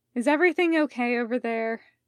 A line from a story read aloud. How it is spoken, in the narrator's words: Medrin sighed and asked